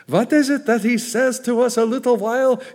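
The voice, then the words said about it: Put-on Jewish accent. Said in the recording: “I can almost hear a Jewish accent.”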